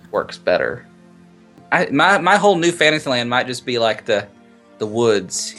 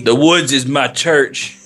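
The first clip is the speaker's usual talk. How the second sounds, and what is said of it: Imitates another person's voice. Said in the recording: “Who are you, like Ralph Waldo Emerson or something? ... That's not how he would sound. ... That was a wonderful impression.”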